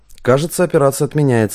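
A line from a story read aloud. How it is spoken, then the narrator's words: Snorting. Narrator (Russian): хмыкнул Василий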